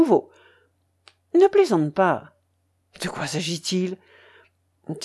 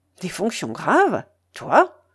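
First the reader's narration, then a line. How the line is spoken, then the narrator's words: Cheerful repeating. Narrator (French): répéta-t-il d'un ton enjoué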